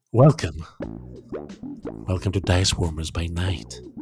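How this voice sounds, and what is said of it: Put-on sultry voice, comes off creepy. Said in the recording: “This is my sexy voice, or my scary voice ... It is different than my usual voice ... because you're trying to be sexy, it's a little bit scary”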